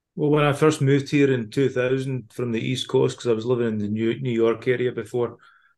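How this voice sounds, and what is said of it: Scottish accent. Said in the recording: “once of Scotland ... you've still kept your accent”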